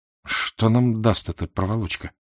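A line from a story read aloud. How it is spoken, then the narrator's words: Quiet question. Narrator (Russian): вполголоса спросил Фандорин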